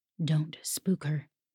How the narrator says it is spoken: Bertram whispered

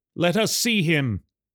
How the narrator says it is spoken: called out

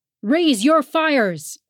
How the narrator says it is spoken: Father roared above them all

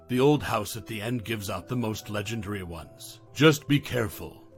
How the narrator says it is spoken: her voice dropping

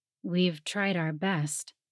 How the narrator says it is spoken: he said with a sigh

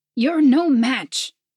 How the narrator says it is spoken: her master cried

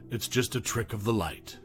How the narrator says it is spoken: Shaking her head, muttered

